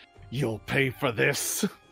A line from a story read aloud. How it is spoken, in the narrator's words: cursing and muttering